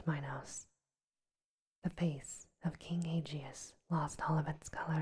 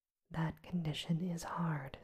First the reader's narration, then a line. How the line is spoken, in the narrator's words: said the elders